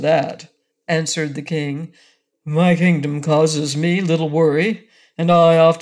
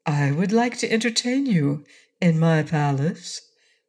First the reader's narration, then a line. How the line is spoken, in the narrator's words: returned Ozma sweetly